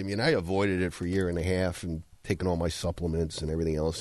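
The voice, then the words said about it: Slightly weird, unwell-sounding voice. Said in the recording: “my voice sounds a little weird, I'm still recovering from my COVID”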